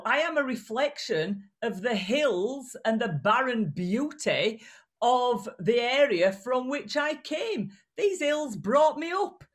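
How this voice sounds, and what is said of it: Strong regional British accent, not posh. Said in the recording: “if you continue to speak in that tone... They pay three times extra for this accent now... I can do a posh voice, but it's real”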